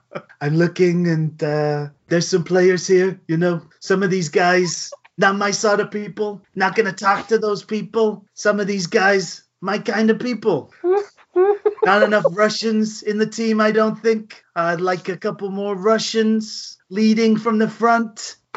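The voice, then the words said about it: Donald Trump impression. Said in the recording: “your impression ... a bit Larry David doing the Donald Trump ... Larry David or Alec Baldwin's Trump”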